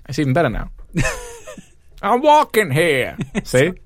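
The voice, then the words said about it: Put-on New York accent. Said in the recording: “I did a great accent... So I can do it by region. That was Harlem.”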